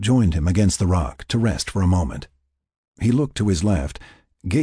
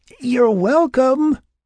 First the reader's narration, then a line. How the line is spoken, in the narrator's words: Will sputtered in between breaths